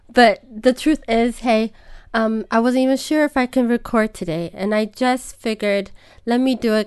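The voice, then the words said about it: Rusty, hoarse voice. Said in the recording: “my voice is a bit rusty, a little bit like Phoebe from Friends, if you can remember that episode where she thought she had a nice, sexy voice.”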